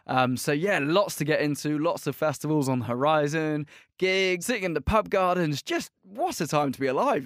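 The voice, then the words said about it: English British accent. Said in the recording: “I have fully kept hold of my English accent... if anything, I sound more British... I am still staying strong with the British accent”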